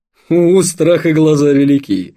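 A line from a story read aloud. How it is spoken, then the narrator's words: Laughing. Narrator (Russian): засмеялся Вадим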